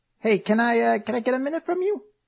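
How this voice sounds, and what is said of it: Slight New York accent. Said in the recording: “what accent was that? ... You came a little New York for a moment, I didn't intend it. ... It was so good.”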